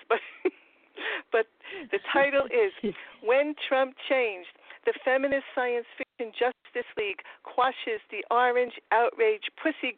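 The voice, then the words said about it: Queens New York accent. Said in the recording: “my Trump Queens accent ... I'm from Forest Hills, Queens ... I speak with the same accent that he does”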